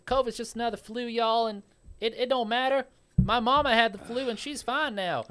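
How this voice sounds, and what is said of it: Put-on Southern American accent. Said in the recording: “I'm going to use my southern accent again.”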